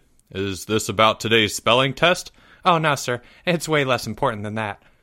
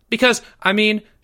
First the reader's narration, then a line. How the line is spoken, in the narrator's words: Jeffrey added quickly